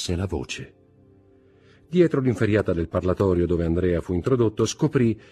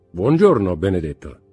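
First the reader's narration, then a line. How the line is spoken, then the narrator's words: Clear, resonant voice. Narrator (Italian): disse Bertuccio con la sua voce chiara e sonora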